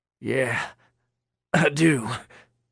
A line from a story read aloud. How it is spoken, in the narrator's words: Roy said, his voice ragged